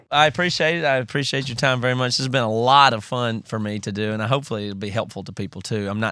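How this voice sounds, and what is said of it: Southern US South Carolina accent. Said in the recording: “my accent's throwing you off like it does with everybody ... you didn't lose the accent ... I'm from South Carolina originally ... I still talk this way”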